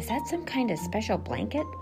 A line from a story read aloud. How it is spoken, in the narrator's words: Flora asked Oscar